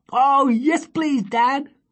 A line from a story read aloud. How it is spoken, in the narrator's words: they cried